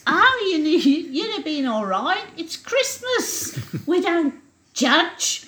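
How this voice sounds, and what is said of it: Imitated voice sounding a bit Brummy. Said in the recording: “She's starting to sound a bit of a Brummy now.”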